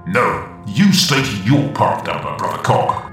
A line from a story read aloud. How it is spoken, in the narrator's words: he barks